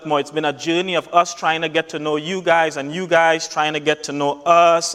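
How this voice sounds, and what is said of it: Thick accent. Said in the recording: “this accent has been thick”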